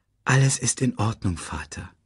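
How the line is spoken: Said gently. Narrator (German): sagte Simba sanft

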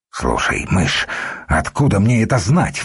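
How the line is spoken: Exclamation. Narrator (Russian): воскликнул Духарев

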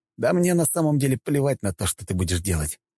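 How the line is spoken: Plain. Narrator (Russian): ответил я

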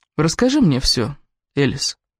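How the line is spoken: Soft but firm. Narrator (Russian): мягко, но непреклонно сказал Кевин

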